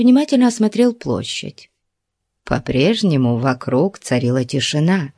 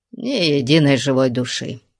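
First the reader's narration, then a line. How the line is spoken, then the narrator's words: Reassured grumble. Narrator (Russian): пробурчал он успокоенно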